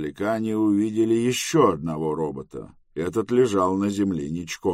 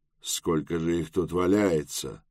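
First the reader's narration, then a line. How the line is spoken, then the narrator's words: Muttering. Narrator (Russian): пробормотал Тревис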